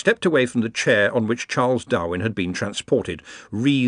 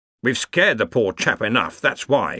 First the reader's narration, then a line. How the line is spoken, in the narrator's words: snapped Ridcully